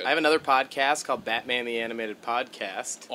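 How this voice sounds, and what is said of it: Hoarse, partly lost voice. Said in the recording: “I'm halfway to losing my voice right now ... I just was screaming over music in some New York bars over the weekend.”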